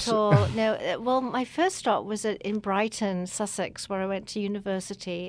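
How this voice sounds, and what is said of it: Yorkshire English accent. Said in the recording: “I can tell from your accent ... New York in Yorkshire, England.”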